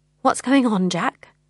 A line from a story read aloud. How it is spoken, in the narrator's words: I asked unsteadily